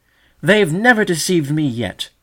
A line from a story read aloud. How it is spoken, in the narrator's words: cried the young Sedge Warbler firmly, his feathers ruffling with indignation